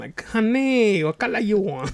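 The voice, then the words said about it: Put-on Asian accent. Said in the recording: “I wish you would have had like a Asian accent.”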